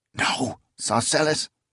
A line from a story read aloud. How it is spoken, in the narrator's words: she hissed